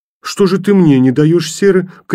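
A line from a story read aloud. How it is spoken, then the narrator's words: Shouted. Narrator (Russian): крикнула ему Женя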